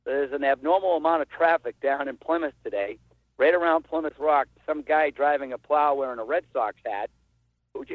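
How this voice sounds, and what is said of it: Regional New England accent. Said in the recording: “wonderful regional accent that he's from here”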